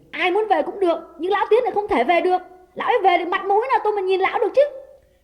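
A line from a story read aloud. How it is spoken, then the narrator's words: Shouting. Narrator (Vietnamese): Đào quát lên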